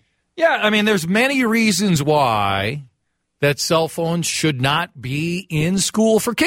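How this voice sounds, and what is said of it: Usual voice. Nothing is said of it.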